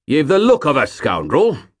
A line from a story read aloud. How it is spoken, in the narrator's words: boomed the man